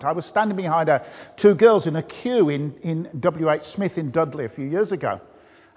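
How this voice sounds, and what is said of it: Birmingham accent. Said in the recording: “I'm from Birmingham ... it took me about 10 minutes to understand what you were saying ... if you think mine accent is difficult”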